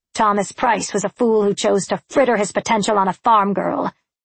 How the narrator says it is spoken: snapped Colin

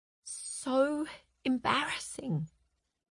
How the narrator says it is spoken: whispered Frances

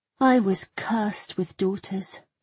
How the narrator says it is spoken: she said sadly

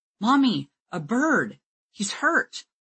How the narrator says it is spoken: Donald's voice cried

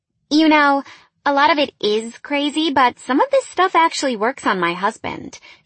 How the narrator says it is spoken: laughed

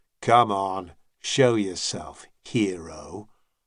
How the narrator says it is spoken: Without much hope of a reaction, Cormac growled

